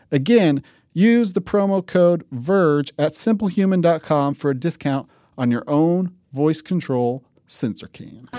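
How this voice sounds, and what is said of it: Imitates another person's voice. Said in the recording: “my not very good impression”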